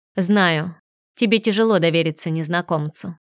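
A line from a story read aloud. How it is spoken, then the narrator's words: Calm. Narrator (Russian): спокойно проговорил Фредерик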